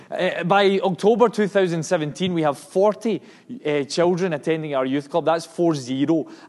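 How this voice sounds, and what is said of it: Scottish accent. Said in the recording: “numbers sometimes don't translate in a Scottish accent”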